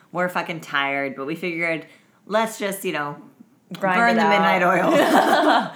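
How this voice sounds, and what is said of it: Raspy, deep, tired voice. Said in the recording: “My voice is extra fucking raspy and deep right now from hours of making hilarious jokes and small talk”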